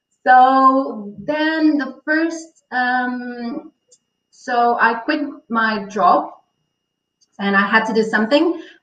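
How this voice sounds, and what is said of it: Portuguese accent. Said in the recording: “are, you Portuguese? ... Yes. I'm a, Portuguese. ... Can you tell from the accent?”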